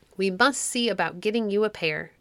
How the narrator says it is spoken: answered Quicksilver

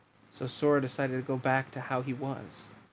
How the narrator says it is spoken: Riku murmured

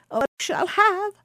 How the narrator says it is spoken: cried Baucis

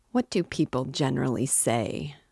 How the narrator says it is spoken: muttered Svidrigailov, as though speaking to himself

